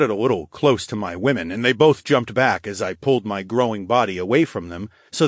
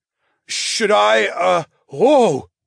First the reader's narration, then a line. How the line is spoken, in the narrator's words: He gasped in the middle of his question